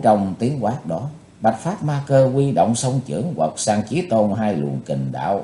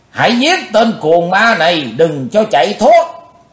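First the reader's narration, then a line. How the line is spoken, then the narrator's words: Shouted. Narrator (Vietnamese): trong tiếng hét, đào phu nhân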